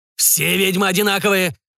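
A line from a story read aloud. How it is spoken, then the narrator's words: Growled. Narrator (Russian): прорычал Бернар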